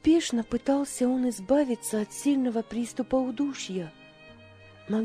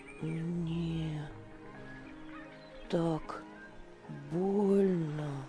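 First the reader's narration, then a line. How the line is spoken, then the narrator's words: Mumbled, young boy. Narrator (Russian): пробормотал мальчик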